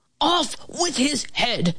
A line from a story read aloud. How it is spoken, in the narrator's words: shouted